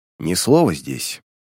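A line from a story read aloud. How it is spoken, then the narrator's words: Quiet. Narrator (Russian): тихо сказал он ему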